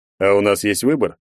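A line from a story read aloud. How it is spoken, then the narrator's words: Mocking question, big man. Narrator (Russian): насмешливо спросил здоровяк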